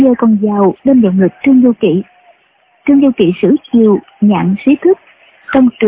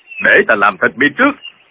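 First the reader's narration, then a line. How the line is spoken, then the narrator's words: Shout. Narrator (Vietnamese): hắn tự thứ hai quát lên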